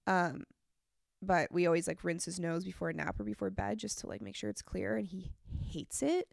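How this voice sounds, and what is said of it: Congested, nasal-sounding voice. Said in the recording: “as you could tell from my voice, I'm a bit congested. I've been congested for like a week now”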